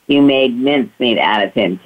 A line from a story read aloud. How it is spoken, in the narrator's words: Kitty laughed